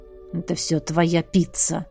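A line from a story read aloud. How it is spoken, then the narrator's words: Grumbling. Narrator (Russian): ворчал он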